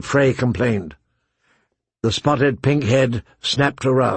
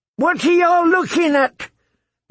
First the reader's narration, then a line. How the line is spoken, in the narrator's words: shouted